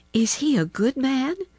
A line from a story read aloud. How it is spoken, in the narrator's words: inquired the girl anxiously